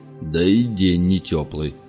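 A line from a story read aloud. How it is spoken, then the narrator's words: Grumbling. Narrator (Russian): проворчал Гайдабура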